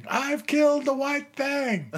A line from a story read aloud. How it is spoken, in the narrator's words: My mama was out on the front porch, hysterically screaming